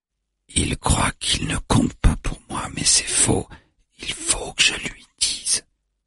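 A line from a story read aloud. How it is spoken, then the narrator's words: Whispered. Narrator (French): chuchote-t-il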